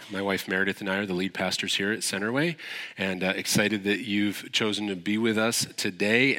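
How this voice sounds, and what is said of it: Congested voice. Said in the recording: “excuse my voice ... I started with a little bit of a head cold ... I still sound a little congested”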